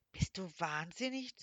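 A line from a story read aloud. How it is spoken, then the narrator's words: Hissing. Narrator (German): zischte Max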